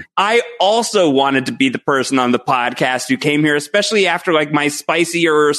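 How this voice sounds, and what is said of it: Usual voice. Nothing is said of it.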